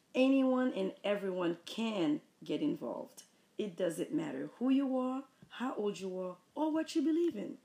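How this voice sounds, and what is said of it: Haitian accent. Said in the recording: “my beautiful Haitian accent”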